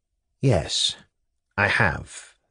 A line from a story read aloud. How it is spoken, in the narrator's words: said Pavel quietly